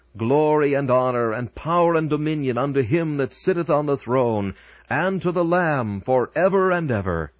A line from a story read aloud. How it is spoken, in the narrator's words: those who stand on the boundless plains of heaven, and with all their might shout